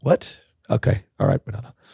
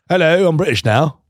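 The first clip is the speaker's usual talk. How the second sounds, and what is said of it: Put-on British accent. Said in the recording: “she came with a British accent”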